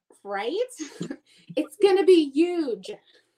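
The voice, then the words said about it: Imitates another person's voice. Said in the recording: “my Trump impersonation.”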